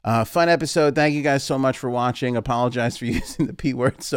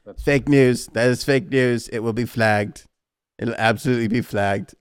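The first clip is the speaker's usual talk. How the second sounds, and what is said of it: Bad Donald Trump impression. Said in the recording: “bad Trump impression”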